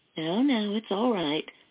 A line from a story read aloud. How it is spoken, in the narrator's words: the nurse said in a soothing voice